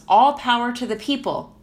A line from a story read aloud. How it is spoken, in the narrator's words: shouts